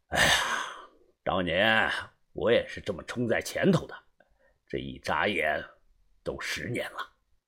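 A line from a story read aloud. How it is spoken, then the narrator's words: Calm, detached. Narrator (Chinese): 淡淡的开口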